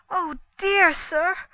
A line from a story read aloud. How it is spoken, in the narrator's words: cried Dorcas